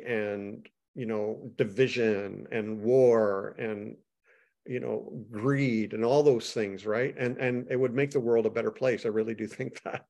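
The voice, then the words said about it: Canadian accent. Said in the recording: “I knew I heard the accent. I was thinking maybe Minnesotan. ... I'm Canadian. ... You got the O.”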